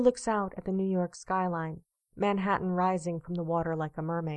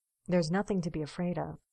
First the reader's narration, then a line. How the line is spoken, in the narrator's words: Steve says quietly